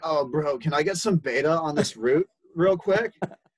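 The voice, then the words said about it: Put-on West Coast accent. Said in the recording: “Like West Coast, all like ... You've mastered the accents.”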